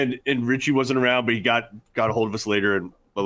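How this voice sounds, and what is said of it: Usual voice. Nothing is said of it.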